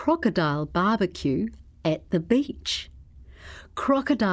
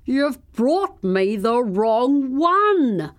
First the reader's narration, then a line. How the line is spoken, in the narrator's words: said the crocodile crossly